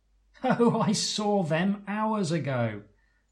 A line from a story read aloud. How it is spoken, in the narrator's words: Edos says, laughing